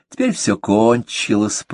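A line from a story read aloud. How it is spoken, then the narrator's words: Purring. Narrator (Russian): промурлыкала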